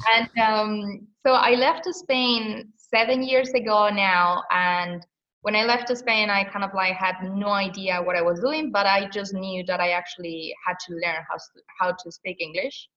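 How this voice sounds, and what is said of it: Strong Spanish accent in English. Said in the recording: “I am Spanish, but I am Spanish ... I believe I still have like a strong accent.”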